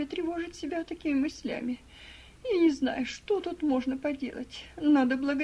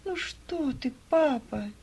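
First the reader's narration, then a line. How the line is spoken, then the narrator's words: Sad. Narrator (Russian): Грустно проговорила Ева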